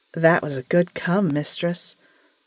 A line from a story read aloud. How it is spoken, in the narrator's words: purred Shannon